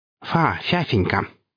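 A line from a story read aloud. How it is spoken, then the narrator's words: Lisping through clenched teeth. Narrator (Russian): прошепелявил кондуктор, удерживая контейнер в зубах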